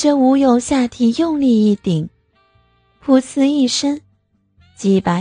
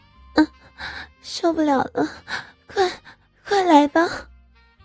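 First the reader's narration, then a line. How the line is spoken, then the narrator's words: Soft calling out. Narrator (Chinese): 小爱轻声呼叫着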